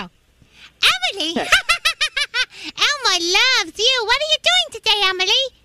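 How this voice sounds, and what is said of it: Elmo character voice. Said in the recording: “I'm going to do Elmo”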